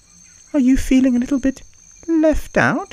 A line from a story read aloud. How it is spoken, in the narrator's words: Monkey chirped